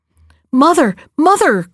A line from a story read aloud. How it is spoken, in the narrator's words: cried Jack